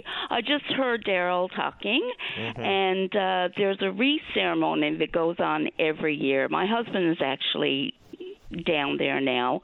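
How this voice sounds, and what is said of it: Slightly rattly, rough voice. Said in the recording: “my voice is a little rattly”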